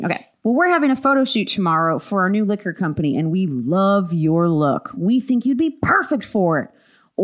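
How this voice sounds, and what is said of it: Put-on Southern accent. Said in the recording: “I'm going to revert back to ... voice ... That's not my voice ... Have you had a southern accent since I've known you?”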